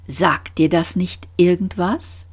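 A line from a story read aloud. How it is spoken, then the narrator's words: Calm. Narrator (German): Trillian sagte mit ruhiger Stimme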